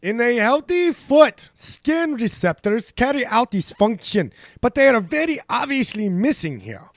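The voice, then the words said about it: Put-on German accent. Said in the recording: “I'm gonna try my German accent again.”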